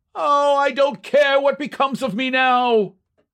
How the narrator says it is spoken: one fan, evidently a little longer winded than his comrades, cried out hysterically

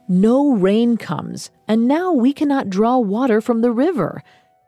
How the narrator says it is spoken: One man barked

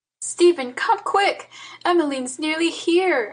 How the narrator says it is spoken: I cried

